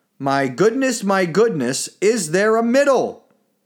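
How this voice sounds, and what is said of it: Raised, loud voice. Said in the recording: “raising my voice.”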